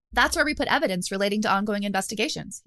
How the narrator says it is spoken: he said

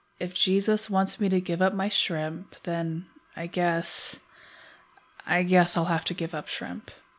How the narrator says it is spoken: said quietly

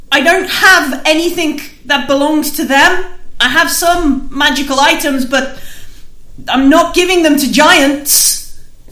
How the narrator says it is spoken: So Arthur shouts

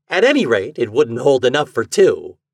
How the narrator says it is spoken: he laughed

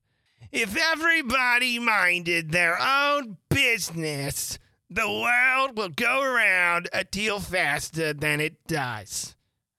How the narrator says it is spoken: said the Duchess in a hoarse growl

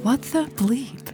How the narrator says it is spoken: She whispered

